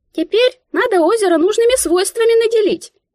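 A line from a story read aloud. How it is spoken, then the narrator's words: Squeaky voice in head. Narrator (Russian): Пискнула в моей голове Мика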